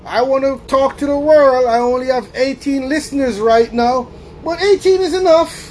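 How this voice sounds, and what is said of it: Speaks with a noticeable accent. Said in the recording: “Hopefully they don't laugh at my accent”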